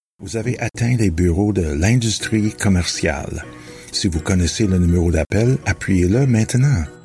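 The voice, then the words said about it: Slight Ottawa Valley French accent. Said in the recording (French): “mon léger accent de la vallée de l'Outaouais”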